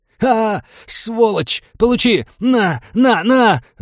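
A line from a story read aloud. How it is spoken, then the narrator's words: Furious yell. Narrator (Russian): заорал напарник убитого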